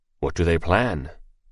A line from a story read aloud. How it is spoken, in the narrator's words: asked Yuan curiously, his voice made low